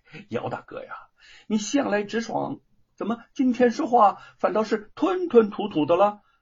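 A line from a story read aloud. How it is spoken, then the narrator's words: Amused. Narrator (Chinese): 吴承恩心中有些好笑，就说了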